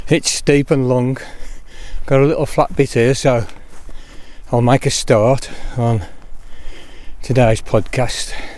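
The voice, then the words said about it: Out of breath while walking. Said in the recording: “I'm a bit out of breath, I'm taking my constitutional and I'll just hold myself up the hill.”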